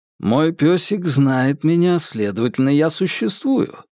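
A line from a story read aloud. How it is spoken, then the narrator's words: Dry tone. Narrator (Russian): сухо произнес Джеймс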